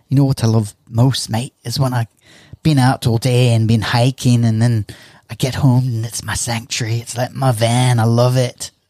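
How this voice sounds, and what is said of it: Attempted English accent, sounding Scottish. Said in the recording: “in his English accent ... sounds a bit Scottish to me. I don't know if that was an English accent ... I can't do an English accent”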